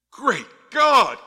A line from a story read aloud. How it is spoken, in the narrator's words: exclaimed